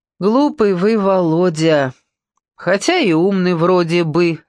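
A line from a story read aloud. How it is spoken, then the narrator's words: Teacher laughing. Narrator (Russian): рассмеялся учитель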